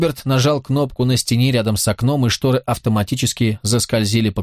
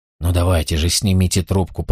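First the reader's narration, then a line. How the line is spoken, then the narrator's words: Through gritted teeth. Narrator (Russian): процедил он сквозь зубы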